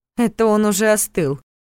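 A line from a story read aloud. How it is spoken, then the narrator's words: Snorting. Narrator (Russian): фыркнула Саша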